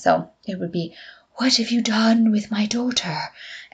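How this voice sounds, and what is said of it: Put-on Irish accent. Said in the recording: “she does it in an Irish accent”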